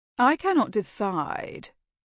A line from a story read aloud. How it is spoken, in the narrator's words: drawled, his patrician manner effortless